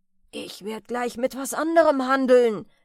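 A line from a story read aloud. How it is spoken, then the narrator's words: Merchant calling out. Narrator (German): rief der Kaufmann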